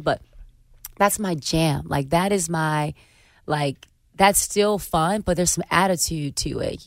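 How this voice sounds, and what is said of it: Hoarse voice. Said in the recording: “my voice is fried from my cold”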